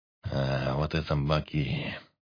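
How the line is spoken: Mumbled. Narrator (Russian): пробормотал он

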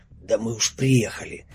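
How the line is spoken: Pained exhale. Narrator (Russian): морщась выдохнул Велесов

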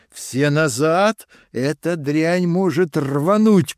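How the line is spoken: Shouted. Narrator (Russian): крикнул я

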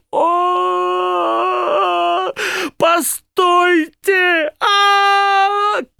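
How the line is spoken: Shout. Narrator (Russian): Крикнул

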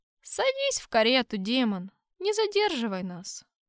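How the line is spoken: Grumbling cardinal. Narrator (Russian): проворчал кардинал

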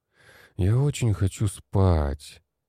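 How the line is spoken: Moaned. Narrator (Russian): простонал я

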